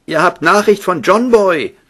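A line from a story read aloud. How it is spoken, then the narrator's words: Calling out. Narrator (German): rief er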